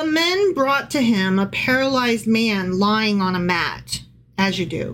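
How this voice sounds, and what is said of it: Usual voice. Nothing is said of it.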